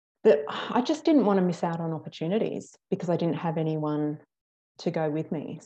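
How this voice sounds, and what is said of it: Australian accent. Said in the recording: “the Australian accent you have”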